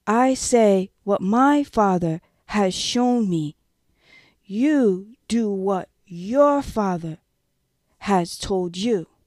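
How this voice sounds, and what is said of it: Slow, deliberate speech. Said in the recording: “saying it slowly”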